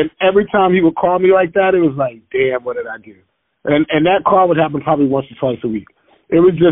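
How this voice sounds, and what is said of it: Usual voice. Nothing is said of it.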